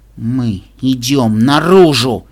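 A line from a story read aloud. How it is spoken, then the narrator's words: Through clenched teeth. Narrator (Russian): процедила Ирис сквозь стиснутые зубы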